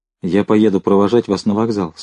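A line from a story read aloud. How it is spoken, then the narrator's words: Plain. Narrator (Russian): сказал он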